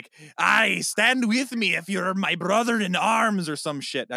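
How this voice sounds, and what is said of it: Poor Scottish accent drifting into pirate. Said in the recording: “I kind of switched to pirate halfway through. I don't have a good Scottish accent.”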